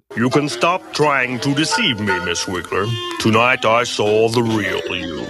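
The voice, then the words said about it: Deep, over-enunciated fake British accent. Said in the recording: “an attempt at a British accent ... overly enunciating being proper ... somebody with a deep voice who's trying to over enunciate with a mouth halfway full of oatmeal ... like they put like marbles in the”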